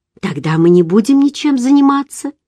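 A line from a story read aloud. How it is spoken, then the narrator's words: Cheerful reply. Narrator (Russian): весело ответила я, думая, что он шутит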